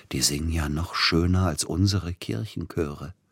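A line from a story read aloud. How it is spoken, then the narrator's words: Whispered. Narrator (German): flüsterte Peter Iljitsch Silotti zu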